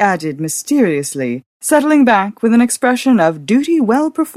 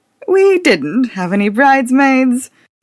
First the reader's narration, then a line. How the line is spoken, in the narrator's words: Madge laughed